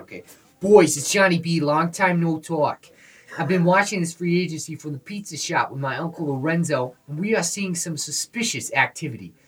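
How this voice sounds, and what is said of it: Inconsistent put-on Northeastern accent. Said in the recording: “do this in a Northeastern accent ... it's going to be like an in-and-out Midwestern ... accent”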